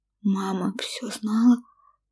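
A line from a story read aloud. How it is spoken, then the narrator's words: Quiet, shocked whisper. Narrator (Russian): тихо прошептала я, перестав от потрясения вырываться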